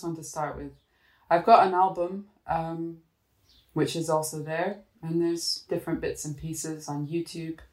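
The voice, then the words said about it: Scottish-sounding accent. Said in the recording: “Some kind of Scottish accent going on?”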